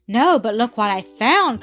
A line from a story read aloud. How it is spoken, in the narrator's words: cried the little girl